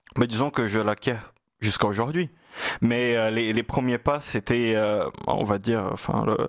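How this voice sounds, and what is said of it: Lilting Brazilian Portuguese accent in French. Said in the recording (French): “chaloupé ... votre brésilien natal, votre portugais natal ... mon portugais du nord-est du Brésil”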